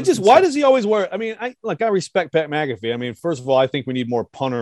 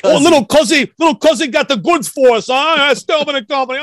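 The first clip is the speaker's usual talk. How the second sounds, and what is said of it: Pat McAfee impression. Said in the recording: “Was that your Pat McAfee impression? ... That's good.”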